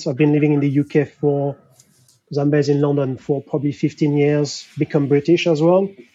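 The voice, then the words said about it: French accent. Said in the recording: “So I'm French, difficult to hide my accent.”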